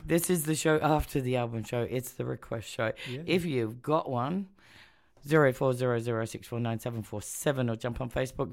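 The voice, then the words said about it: Voice not fully recovered. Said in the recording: “As you can hear, my voice is slowly recovering.”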